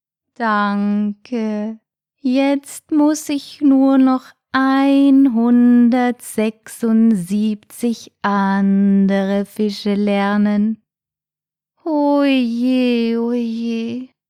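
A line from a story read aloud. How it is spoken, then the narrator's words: Snail sighing. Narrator (German): seufzte die Schnecke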